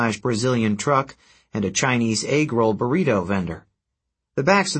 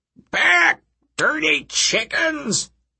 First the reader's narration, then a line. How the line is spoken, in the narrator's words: he bellowed